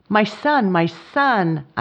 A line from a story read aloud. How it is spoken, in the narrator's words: I exclaimed with transport